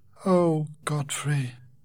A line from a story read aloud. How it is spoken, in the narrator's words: Rachel sighed